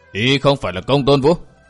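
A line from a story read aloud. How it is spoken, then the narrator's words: Harsh gritted voice. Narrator (Vietnamese): Kinh Hồng gằn giọng nói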